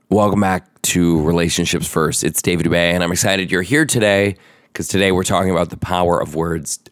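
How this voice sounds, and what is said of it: Hoarse, partly lost voice. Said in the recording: “the sound of my voice should be an indicator ... I literally lost my voice. ... as you can tell, I don't have my entire voice back yet.”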